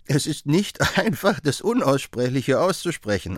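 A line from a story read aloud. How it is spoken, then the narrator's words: Man answering, laughing. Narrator (German): antwortete er lachend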